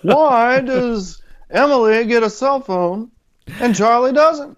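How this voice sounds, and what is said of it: Poor impression of comedian's voice. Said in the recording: “terrible Seinfeld impression, but I tried.”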